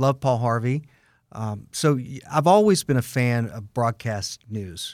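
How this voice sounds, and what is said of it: Usual voice. Nothing is said of it.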